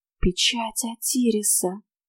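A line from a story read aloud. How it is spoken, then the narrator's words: Whisper. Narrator (Russian): прошептала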